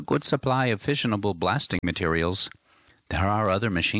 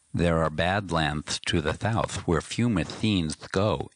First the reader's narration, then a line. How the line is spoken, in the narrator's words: it said in a deep voice, lisping badly on its S's